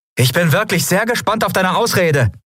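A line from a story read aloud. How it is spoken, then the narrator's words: Called out. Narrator (German): rief Endriel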